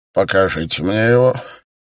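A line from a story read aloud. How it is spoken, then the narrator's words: Harsh creaky command. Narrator (Russian): резким скрипучим голосом приказал мастер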